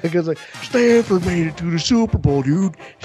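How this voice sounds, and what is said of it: Imitates another person's voice. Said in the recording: “My best dip impression.”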